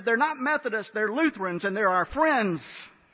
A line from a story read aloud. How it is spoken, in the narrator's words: Sheen yelled back and said